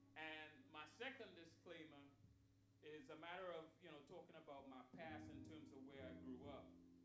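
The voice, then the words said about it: Trinidadian Caribbean accent. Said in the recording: “I'm from the little island called Trinidad and Tobago ... Little Caribbean island ... my accent comes out”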